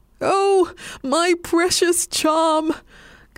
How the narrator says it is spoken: cried the old man

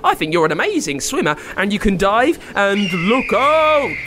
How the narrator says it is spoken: shouted Nigel all of a sudden

